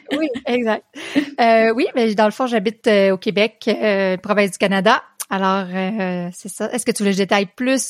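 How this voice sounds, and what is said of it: Noticeable regional French accent. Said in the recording (French): “tout le monde a entendu que tu avais un accent”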